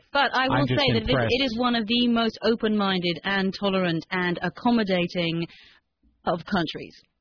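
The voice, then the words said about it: British accent. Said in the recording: “that person with a British accent”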